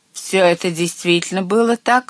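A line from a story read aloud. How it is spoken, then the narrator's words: Stern question. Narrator (Russian): строго спросила главная ведьма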